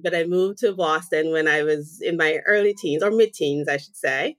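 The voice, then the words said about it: Slight Jamaican accent. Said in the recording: “I hear a little bit of an accent. ... So I'm originally from Jamaica.”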